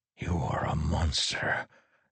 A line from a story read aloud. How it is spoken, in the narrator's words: Teft whispered